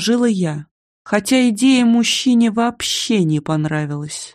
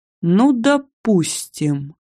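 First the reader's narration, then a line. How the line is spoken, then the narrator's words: Displeased drawl. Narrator (Russian): недовольно протянул он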